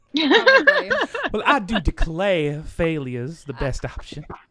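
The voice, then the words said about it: Put-on Southern American accent. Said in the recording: “just doing it in a Southern accent”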